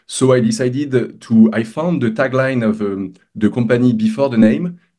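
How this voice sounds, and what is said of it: Non-North American accent. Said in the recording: “It sounds a lot better when you say it with your accent, especially to us as in North America”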